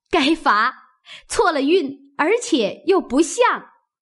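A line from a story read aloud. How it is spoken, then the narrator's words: Group laughing. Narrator (Chinese): 众人笑道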